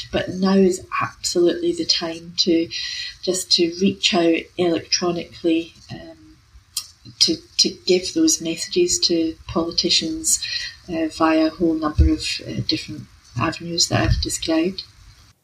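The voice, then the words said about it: British accent. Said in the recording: “given your accent and you know, our shared UK heritage”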